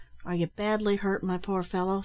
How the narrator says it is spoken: said Ned, anxiously

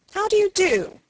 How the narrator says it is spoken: cried

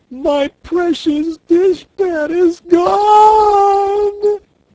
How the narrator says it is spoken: she wailed

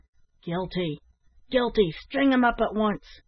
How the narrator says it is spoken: several of the miners cried out

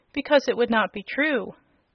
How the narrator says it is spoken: said Dorothy gravely

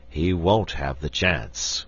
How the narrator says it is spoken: grumbled the Bear King

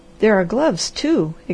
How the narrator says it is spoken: exclaimed the Harvester

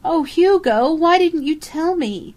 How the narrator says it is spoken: Karen Marshall wailed

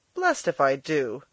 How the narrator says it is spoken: he cried

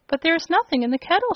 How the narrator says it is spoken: she cried

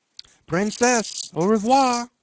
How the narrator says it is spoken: cried he, stumbling with his tongue

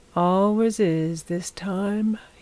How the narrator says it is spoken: he said, yawning

